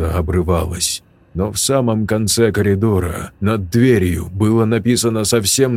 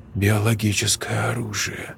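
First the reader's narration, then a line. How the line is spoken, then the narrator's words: Whisper. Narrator (Russian): прошептала Настя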